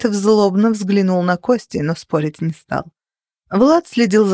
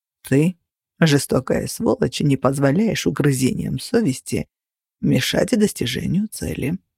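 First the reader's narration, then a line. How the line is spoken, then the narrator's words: Calm explanation. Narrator (Russian): спокойно пояснил Кости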